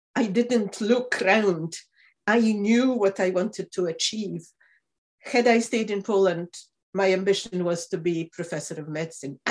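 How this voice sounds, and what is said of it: Polish-accented English. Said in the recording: “I am asked about my accent about three times a day”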